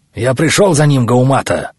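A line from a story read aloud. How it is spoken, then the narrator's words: Barked. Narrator (Russian): рявкнул Кархан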